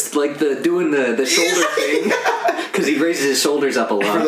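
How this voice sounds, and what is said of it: Usual voice. Nothing is said of it.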